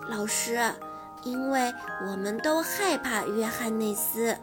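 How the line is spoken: Soft. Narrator (Chinese): 他轻声地对妮娜老师说

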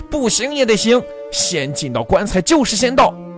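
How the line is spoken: Roar. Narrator (Chinese): 周大福也吼道

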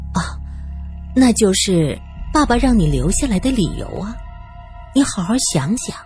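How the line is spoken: Gentle, taken aback. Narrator (Chinese): 郭姨妈被问的一愣，柔声解释道

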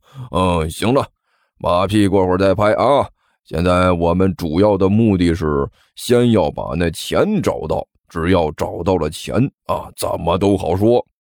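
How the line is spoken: Sly chuckling. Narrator (Chinese): 阿巴老鼠…嘿嘿怪笑着说道

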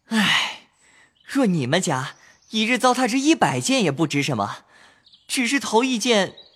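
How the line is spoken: Exasperated sighing. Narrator (Chinese): 宝玉跌脚叹道

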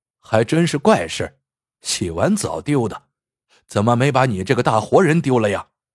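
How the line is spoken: Sneering. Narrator (Chinese): 孙艺兴冷笑一声

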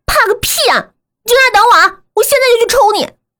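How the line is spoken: Shouting into phone. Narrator (Chinese): 我冲着手机喊

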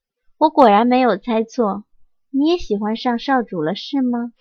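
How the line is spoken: Sighing. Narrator (Chinese): 蓝烟叹了口气道

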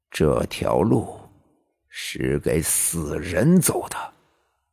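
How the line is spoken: Low voice. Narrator (Chinese): 对子午低声说道

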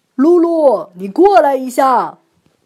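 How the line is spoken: Calling out. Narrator (Chinese): 他朝门外喊

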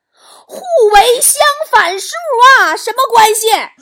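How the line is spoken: Angry shout. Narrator (Chinese): 王嫂继续气愤的喊

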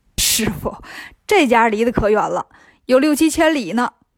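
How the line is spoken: Laughing. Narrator (Chinese): 孙悟空笑着说

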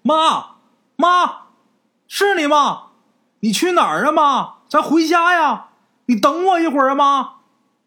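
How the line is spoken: Anxious repeated calling. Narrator (Chinese): 刘哲着急了，不停的在后边喊

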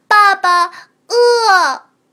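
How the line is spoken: Child calling out. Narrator (Chinese): 小家伙又叫了一声

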